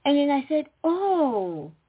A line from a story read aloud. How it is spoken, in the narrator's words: I exclaimed